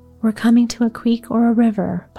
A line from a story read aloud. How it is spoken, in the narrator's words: Pa said